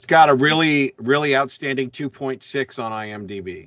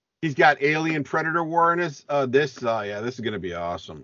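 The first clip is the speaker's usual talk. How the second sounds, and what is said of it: Sarcastic delivery. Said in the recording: “And I'm saying that sarcastically.”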